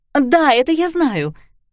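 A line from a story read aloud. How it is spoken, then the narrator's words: Impatient exclamation. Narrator (Russian): нетерпеливо воскликнула Кларисса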